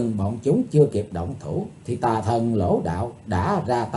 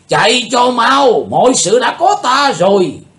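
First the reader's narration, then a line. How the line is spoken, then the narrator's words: Shouting. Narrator (Vietnamese): Tà thần lỗ đạo liền quát lên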